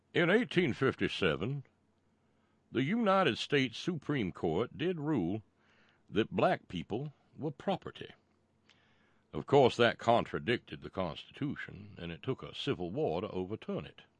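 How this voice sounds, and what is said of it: Exaggerated cornpone Southern accent. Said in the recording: “Yes, there will be a stupid cornpone accent”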